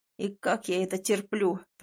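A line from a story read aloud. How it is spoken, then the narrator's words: Groaning ghost. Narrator (Russian): простонал призрак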